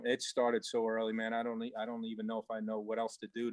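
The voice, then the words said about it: Long Island accent. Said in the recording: “they could tell by your accent. You're proud boy from from Long Island area”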